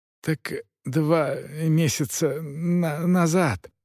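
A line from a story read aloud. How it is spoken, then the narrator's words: Stammering. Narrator (Russian): начал, запинаясь, Уддалюбель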